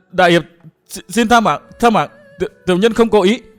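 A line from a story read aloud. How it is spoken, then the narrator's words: Stammering, mouth bloodied. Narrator (Vietnamese): Hắn cố nhổ ra mấy búng máu lẫn vài chiếc răng, lắp bắp nói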